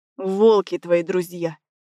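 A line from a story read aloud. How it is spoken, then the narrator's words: Strained hiss through teeth. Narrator (Russian): шипит Сева сквозь зубы, и я понимаю, что он на пределе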